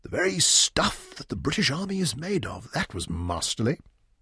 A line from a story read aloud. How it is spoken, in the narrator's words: Leon whispered to Bobby